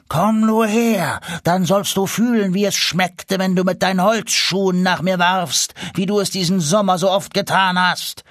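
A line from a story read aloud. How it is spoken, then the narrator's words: Roaring. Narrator (German): brüllte Stern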